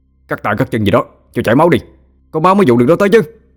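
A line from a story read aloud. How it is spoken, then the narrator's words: Sudden shout from behind. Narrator (Vietnamese): một giọng nói đột nhiên từ phía sau hét tới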